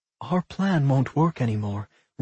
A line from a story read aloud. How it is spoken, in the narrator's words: Rowan muttered